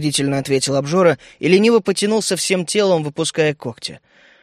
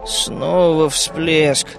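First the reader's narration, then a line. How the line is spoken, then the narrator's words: Sleepy grumble. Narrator (Russian): буркнул я, сонно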